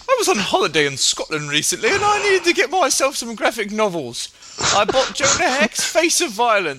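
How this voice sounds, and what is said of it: Deliberately bad British accent. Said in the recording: “I'm going to do it in the worst British accent ever.”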